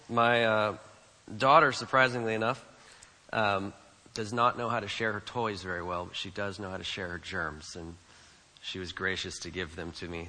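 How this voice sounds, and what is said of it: Congested voice, occasional cracking. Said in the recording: “As you can hear, I have a little bit of a cold. ... There will be some voice cracking”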